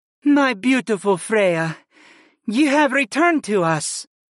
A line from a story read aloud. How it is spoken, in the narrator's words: Rhaetreia sighed